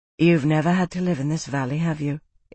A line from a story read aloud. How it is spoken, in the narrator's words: Isana said, her voice wry